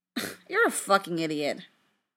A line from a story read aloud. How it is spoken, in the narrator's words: Frank scoffed